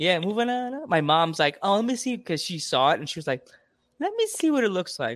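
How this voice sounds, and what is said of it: Usual voice. Nothing is said of it.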